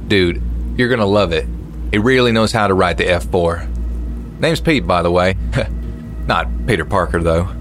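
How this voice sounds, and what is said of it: Thick Southern American accent. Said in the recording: “In this thick southern accent”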